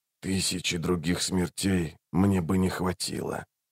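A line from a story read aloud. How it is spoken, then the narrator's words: Very quiet whisper. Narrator (Russian): прошептал он так тихо, что услышали только Рейк и Барук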